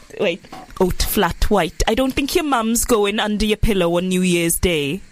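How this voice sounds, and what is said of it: Attempted Welsh accent. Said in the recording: “I can't do a Welsh accent. Why did I even try?”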